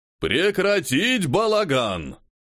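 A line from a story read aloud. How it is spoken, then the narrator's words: Loud booming bark. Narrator (Russian): рявкнул громкий бас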